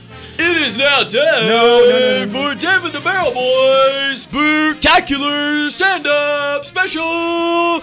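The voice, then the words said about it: Yelling, loud announcer delivery. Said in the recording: “Why are you yelling?”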